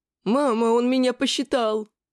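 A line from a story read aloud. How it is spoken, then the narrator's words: Squeaky, suppressing laughter. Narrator (Russian): пропищал Финн, слегка содрогаясь от сдерживаемого смеха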